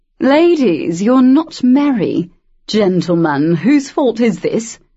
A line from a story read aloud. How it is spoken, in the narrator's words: Lord Wolsey's voice boomed